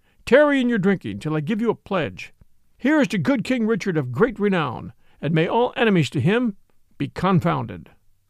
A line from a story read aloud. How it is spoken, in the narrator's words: cried